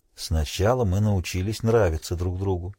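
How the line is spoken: Quiet. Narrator (Russian): сказал он тихо

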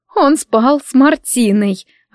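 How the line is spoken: Resigned sigh. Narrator (Russian): обреченно вздохнула

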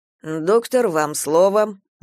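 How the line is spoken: Grumbled. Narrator (Russian): буркнул Галя

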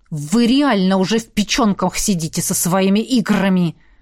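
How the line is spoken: Snarled. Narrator (Russian): рыкнул Джет

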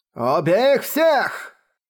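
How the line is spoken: Frenzied shout. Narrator (Russian): остервенело закричал Мо Цзы

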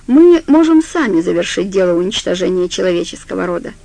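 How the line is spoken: Calm. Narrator (Russian): спокойно сказал Бейтман

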